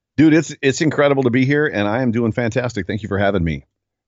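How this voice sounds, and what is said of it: Polished broadcaster's radio voice. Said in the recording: “You got a straight-up radio voice ... you got a voice that's kind of meant for people to”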